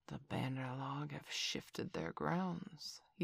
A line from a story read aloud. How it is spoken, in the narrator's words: he said quietly